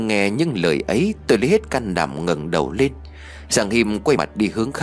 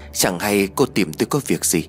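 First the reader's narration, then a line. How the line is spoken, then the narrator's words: Trembling question. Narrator (Vietnamese): Tôi giọng run rẩy hỏi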